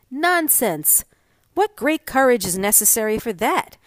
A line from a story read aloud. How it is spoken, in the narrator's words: exclaimed Lieutenant Fleming Wolfe